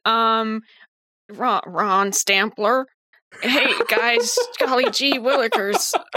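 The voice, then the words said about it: Old-fashioned 1950s-style impression voice. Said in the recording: “I can do a pretty convincing Ron ... my Ron impression ... he's definitely from the 50s.”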